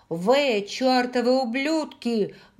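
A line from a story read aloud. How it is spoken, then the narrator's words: Loud. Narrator (Russian): громко произнесла она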